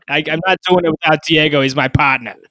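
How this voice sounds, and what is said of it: Exaggerated Boston accent. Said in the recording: “pretty bad Boston accent ... Intermittent”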